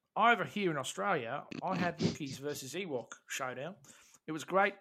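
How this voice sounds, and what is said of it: Put-on Australian accent. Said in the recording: “I really don't want to do it in Australian accent. Don't do an Australian accent”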